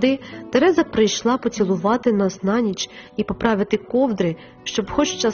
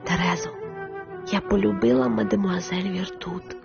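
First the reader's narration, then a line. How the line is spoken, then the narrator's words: Whispered into ear. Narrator (Ukrainian): Я прошепотіла їй на вухо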